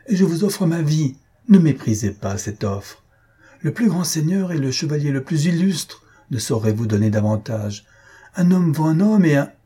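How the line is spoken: Exclaiming. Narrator (French): s'écria-t-il

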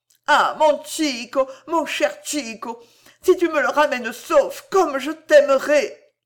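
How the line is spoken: Moaning. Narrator (French): gémit-elle

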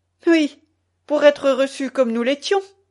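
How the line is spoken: Exclaimed. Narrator (French): s'écria Zélie

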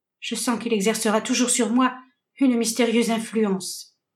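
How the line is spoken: Sad young woman. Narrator (French): répondait tristement la jeune fille

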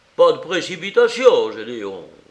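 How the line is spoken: Uncle shouting. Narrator (French): criait l'oncle

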